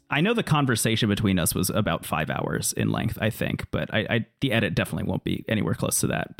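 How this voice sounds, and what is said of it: Raspy, gravelly tired voice. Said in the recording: “you can probably hear that my voice is a little raspy ... sounding a little gravelly”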